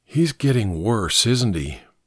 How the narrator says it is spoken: said in a low voice

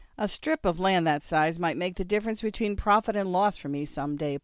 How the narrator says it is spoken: Paul said

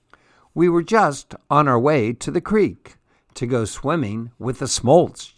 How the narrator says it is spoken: Jack said

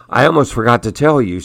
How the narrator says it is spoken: she said

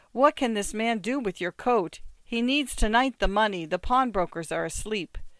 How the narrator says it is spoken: she cried

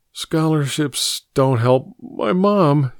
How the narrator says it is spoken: he insisted, his voice choked with tears

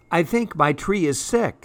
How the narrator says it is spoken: said Fletcher

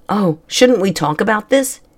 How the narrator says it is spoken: he asked

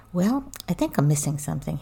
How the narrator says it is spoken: he said

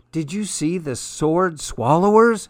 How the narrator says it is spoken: exclaimed Mama

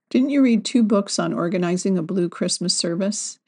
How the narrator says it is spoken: he said

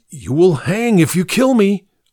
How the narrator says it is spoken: threatened hysterically

